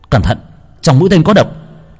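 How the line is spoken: Crying out. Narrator (Vietnamese): Bác cổ kêu lên

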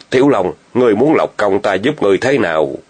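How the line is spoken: Loud shout. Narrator (Vietnamese): quát lớn

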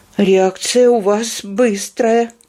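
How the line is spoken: Forced, strained words. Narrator (Russian): выдавил из себя Гомер

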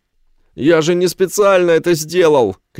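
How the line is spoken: Shouting. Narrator (Russian): кричал Ричард

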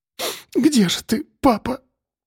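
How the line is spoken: Sobbing. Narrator (Russian): всхлипывала она

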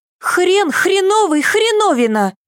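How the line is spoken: Shrieking yell. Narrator (Russian): завопила Ева

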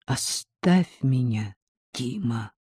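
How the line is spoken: Weak whisper, frozen lips. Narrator (Russian): прошептал посиневшими от холода губами

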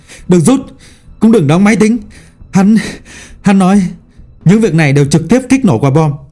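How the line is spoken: Frightened loud cry. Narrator (Vietnamese): Nhâm Xuyên sợ hãi kêu to

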